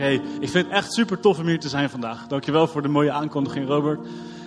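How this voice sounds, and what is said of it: Strong Hague Dutch accent. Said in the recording (Dutch): “ik heb een lekker Haags accent, dat hoor je gelijk hè ... oh dat is echt een Haagenees”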